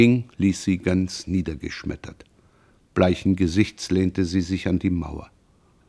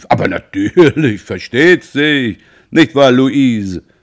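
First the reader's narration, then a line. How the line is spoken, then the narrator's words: Calling out. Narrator (German): Roland rief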